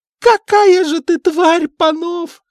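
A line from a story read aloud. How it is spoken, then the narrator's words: Shouting. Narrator (Russian): закричала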